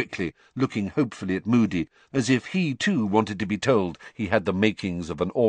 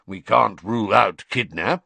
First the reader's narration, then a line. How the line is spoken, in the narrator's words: growled Moody